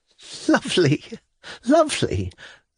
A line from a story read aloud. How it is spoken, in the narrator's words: Liza laughed hysterically